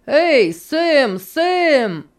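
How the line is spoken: Shouting. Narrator (Russian): закричал Энди

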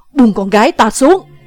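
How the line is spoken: Shouting. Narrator (Vietnamese): Người đứng mé tả quát

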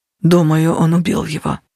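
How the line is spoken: Mumbled. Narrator (Russian): пробормотал Натаниэль

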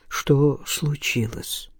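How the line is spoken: Quiet question. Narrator (Russian): негромко спросил Илья

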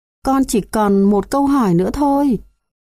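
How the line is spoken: Pleading little girl. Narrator (Vietnamese): con bé nài nỉ

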